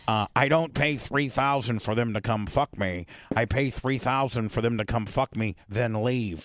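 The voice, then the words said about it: Imitates another person's voice. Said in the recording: “I'm probably not a good impersonator.”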